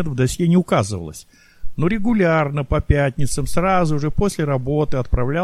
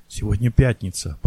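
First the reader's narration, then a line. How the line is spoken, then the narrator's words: Whisper. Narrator (Russian): прошептал Яровой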